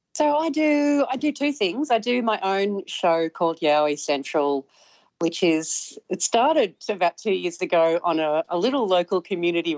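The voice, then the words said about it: Australian accent. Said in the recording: “I love the accent”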